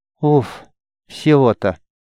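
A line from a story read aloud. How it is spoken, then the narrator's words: Queen exhaling with relief. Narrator (Russian): выдохнула королева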